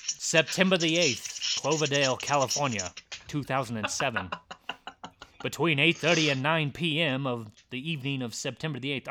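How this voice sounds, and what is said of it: Old-time 1920s newscaster voice. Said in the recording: “I could do my newscaster voice too ... It's more 1920s though. It's more like 1920s like racetrack.”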